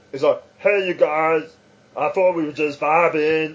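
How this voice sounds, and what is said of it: Imitates a cartoon character's voice. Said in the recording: “that was a terrible impression.”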